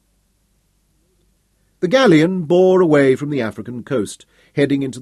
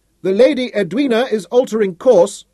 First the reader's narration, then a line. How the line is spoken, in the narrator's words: shouted down